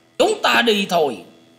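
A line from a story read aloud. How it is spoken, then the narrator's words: Old man shouting loudly. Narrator (Vietnamese): lão ta quát to lên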